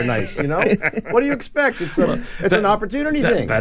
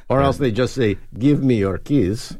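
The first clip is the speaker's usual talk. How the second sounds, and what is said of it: Put-on unidentifiable accent. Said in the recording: “I'm not sure what kind of accent that was.”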